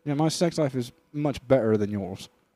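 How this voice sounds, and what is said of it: Put-on British American accent. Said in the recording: “What's his accent too? How do we do Andrew Tate? ... He's British, but also from the U.S. ... he's British American. ... he'll talk like this the entire time.”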